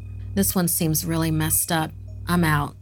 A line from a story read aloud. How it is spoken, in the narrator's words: Anne said